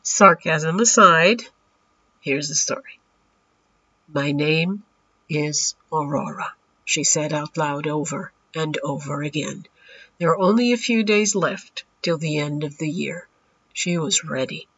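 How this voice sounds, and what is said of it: Congested voice from a cold. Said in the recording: “Pardon my voice. ... As you can hear, I have this fantastic cold”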